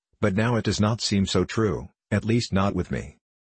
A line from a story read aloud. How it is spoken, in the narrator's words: said the soldier, coldly